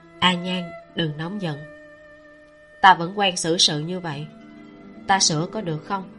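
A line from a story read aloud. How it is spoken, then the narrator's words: Soothing, soft-voiced. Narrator (Vietnamese): Tiêu Tụng vỗ về, nhỏ giọng nói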